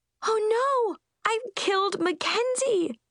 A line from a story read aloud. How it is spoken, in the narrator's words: I wailed